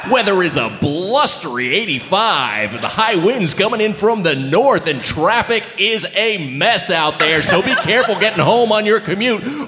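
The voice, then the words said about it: Radio announcer voice. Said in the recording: “It sounded like I was listening to a radio ad... Was that your radio ad voice?... That's my radio voice. Radio man on the radio talking about radio things.”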